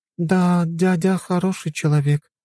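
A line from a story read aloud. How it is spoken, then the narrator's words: Sighing. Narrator (Russian): вздохнула женщина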